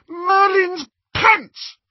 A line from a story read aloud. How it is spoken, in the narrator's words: she shrieked